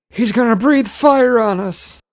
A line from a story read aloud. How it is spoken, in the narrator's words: Uncle Seamus screamed